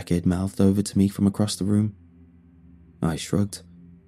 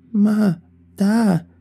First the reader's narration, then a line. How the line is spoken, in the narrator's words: whined